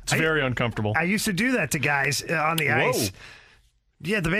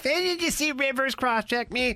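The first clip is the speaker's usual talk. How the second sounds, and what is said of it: Whiny baby voice. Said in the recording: “his baby impersonation ... the baby impression ... They go whine to the ref”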